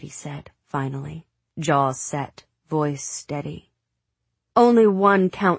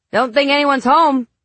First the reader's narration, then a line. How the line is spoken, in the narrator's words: the lawn man called out